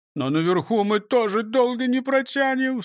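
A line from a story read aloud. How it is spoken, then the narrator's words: Sobbing. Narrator (Russian): всхлипнул он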